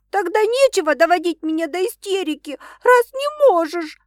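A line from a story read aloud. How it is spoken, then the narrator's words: Sobbing while chewing. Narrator (Russian): рыдать, жуя круассан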